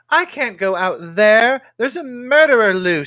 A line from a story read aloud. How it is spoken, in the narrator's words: cried